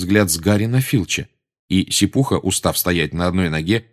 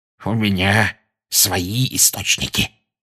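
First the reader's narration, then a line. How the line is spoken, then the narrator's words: Smug hiss. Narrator (Russian): самодовольно прошипел Филч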